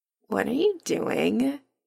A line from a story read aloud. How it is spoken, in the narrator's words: Adam murmurs without opening his eyes